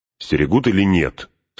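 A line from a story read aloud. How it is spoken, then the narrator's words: Stern question. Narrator (Russian): строго спросил Фродо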